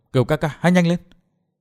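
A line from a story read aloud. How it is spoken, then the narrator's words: Soft whisper. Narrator (Vietnamese): Tiểu Tây Thi khẽ thầm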